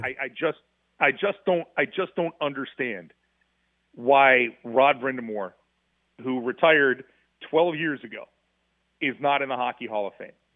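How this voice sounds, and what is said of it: Heated, fired-up speaking voice. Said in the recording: “if you can tell in my voice. ... I get a little fired up talking about this right now.”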